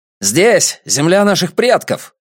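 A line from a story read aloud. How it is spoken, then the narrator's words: Young man barking. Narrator (Russian): рявкнул юноша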